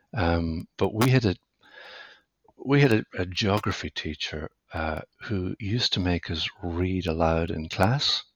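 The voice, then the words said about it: West of Ireland accent. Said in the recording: “as you might tell from my accent, I grew up in the west of Ireland”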